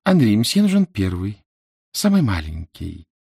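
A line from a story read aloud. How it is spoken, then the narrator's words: Cooing. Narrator (Russian): проворковала она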